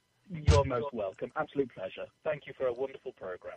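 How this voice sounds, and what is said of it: Classy James Bond-like accent. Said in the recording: “he's got that accent, so it sounds classy... I feel like James Bond was just here... it's the accent. It classes up the joint.”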